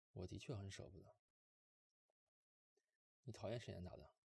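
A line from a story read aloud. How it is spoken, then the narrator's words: Soft, gentle. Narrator (Chinese): 莫北……柔声说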